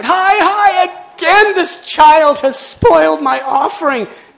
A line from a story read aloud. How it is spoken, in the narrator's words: cried out